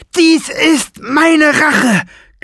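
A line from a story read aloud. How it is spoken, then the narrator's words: Shrieking. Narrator (German): kreischte er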